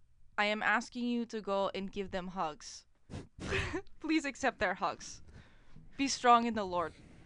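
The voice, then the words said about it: Put-on Russian accent. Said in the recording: “You're reading this in the wrong accent. ... This is a Russian guy. ... You do a good Russian.”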